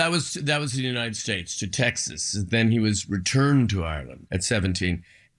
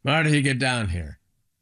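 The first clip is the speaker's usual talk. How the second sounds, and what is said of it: Imitated Irish brogue. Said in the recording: “a very Irish house. My father had a brogue.”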